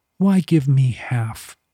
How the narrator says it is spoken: Henley sighed

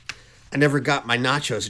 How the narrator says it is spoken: Andromeda sighs

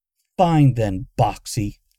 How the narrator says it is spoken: Luna snapped

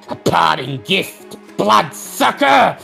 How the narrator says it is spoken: screams

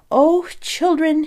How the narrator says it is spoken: he exclaimed

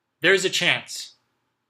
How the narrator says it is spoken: Sam yelled

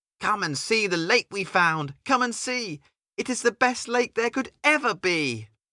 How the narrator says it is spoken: He hopped high with joy and exclaimed

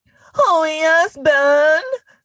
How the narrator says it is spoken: Gwen cried out

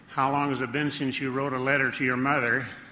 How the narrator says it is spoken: he said

